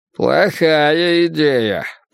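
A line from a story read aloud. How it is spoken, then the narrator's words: Grumbling. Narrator (Russian): проворчал Грюнальди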